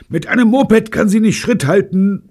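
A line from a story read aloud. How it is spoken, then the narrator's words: Shouting. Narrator (German): brüllte Betty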